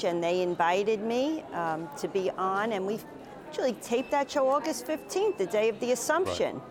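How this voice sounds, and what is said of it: New York accent. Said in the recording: “So your accent, you sound like somebody from my part of the world there. Am I picking up correctly on the New York metro there? ... my accent is definitely New York through and through.”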